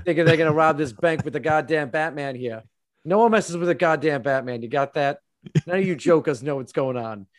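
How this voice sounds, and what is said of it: Put-on Boston accent, tough-guy voice. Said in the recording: “having a Boston accent as Batman ... It's having a Boston Batman.”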